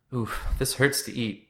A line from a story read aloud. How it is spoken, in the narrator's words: said as he tenderly touched his swollen bottom lip